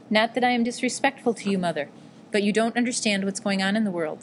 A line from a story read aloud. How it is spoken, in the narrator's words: said Hideo